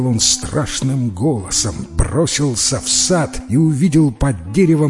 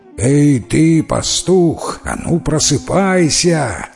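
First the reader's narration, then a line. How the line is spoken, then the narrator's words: Growling. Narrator (Russian): зарычал Дев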